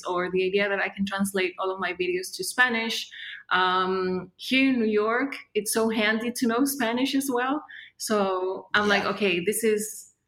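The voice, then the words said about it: Non-native English accent. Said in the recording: “English not being your first language ... my accent ... I love your accent, it's so cool”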